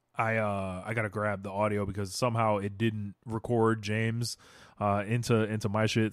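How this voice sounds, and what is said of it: Strained, struggling voice. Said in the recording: “My voice is like struggling tonight.”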